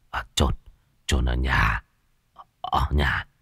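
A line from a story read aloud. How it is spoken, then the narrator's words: Old man muttering. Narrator (Vietnamese): Lão lẩm bẩm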